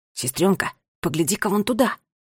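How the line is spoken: Whisper. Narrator (Russian): прошептал Ларри

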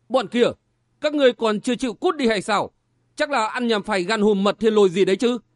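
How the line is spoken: Shout. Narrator (Vietnamese): Tên họ Trương quát lên

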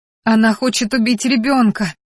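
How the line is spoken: Full-throated scream in pain. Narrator (Russian): закричала во все горло, громко застонав, так как метка снова пришла в действие

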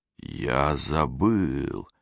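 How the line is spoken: Slow drawl. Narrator (Russian): медленно протянул он

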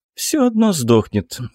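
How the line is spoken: Calm answer. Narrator (Russian): спокойно ответила Нина

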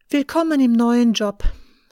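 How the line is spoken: Sighing to herself. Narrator (German): sagt zu sich selbst und seufzt

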